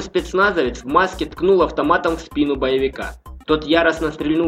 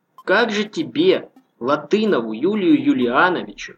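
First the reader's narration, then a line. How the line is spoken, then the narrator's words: Gentle fatherly tone. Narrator (Russian): продолжил почти по-отечески мягко говорить майор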